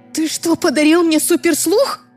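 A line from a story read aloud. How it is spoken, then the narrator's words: Frightened yell. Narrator (Russian): заорала я испуганно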